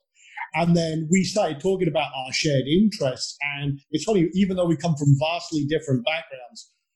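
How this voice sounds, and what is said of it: Scottish accent. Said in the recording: “I come from a tiny island at the north tip of Scotland ... despite my accent, I live in Texas”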